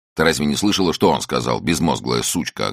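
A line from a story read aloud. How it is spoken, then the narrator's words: Snapping retort. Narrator (Russian): огрызнулся Чак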